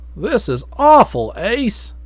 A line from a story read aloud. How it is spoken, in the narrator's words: Stevens groaned